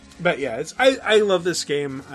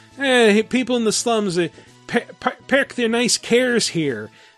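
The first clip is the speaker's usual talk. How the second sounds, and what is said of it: Put-on Irish accent. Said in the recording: “he has an Irish accent ... That was a spot on Irish accent ... That was better ... Better than Brad Pitt's Irish accent”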